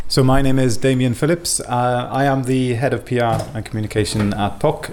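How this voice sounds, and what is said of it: Welsh accent. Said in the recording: “the accent kind of wasn't the regular one. So I'm actually not a Swede... I'm from Wales originally”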